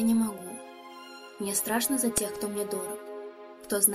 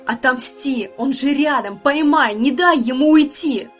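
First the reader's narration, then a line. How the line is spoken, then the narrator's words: Inner voice shouting. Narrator (Russian): Все мои инстинкты кричали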